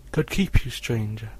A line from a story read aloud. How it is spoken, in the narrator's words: I exclaimed